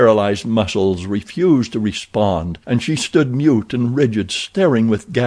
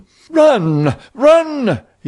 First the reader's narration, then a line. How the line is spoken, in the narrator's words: cried